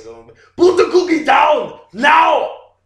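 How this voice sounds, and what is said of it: Loud Arnold Schwarzenegger impression. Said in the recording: “my Arnold impression ... a good Arnold impression ... way too loud”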